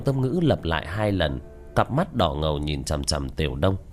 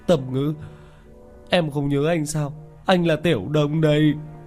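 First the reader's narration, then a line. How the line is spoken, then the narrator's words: Sobbing, tearful. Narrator (Vietnamese): khuôn mặt béo phì đầy nước mắt, thút thít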